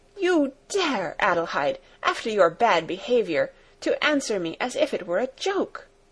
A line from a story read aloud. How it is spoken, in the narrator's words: With raised voice she exclaimed